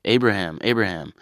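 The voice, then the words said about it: Deliberately bad angel voice. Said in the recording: “Terrible impression of an angel.”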